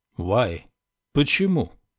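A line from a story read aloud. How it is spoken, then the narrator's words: Irritated question. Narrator (Russian): раздраженно поинтересовался Лоуренс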